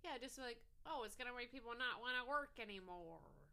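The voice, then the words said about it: Impression of Gary Goldman. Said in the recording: “Is that your Gary Goldman? ... Yeah, that's my Gary Goldman. If I did that impression on stage”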